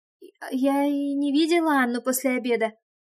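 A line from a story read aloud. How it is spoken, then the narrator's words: Trembling confession. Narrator (Russian): призналась она дрожащим голосом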